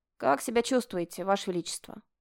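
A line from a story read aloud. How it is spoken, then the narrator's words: Plain. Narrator (Russian): спросила она после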